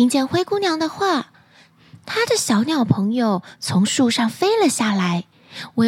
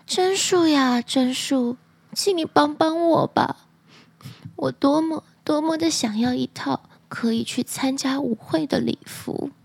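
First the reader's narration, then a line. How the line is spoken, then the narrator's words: Sad, tearful. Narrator (Chinese): 灰姑娘伤心极了，哭泣，不由自主地说出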